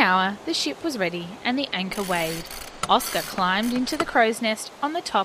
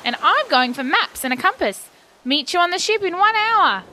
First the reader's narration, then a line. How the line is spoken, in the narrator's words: cried Bubu, already running